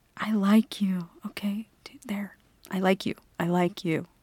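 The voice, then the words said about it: Whispering. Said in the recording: “I'm not whispering because I'm embarrassed. I'm whispering ... I need to whisper.”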